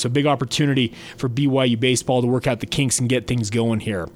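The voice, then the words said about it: Congested, cold-affected voice. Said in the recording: “Pardon my voice, I apologize, but still dealing with a little bit of a head cold”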